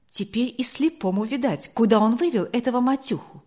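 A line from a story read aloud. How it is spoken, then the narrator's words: Plain. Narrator (Russian): ответил другой голос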